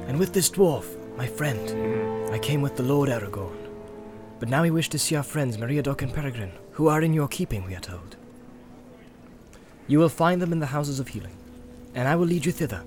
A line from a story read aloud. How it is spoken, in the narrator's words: said Imrahil